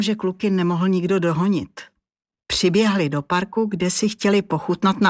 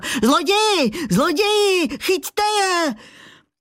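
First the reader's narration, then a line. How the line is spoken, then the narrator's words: Shouting. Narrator (Czech): pan Polák křičel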